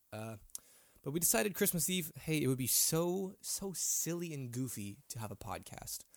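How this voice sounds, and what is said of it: Congested voice, sounds like a cold. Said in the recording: “I do sound like I have a cold right now, because I do have a cold.”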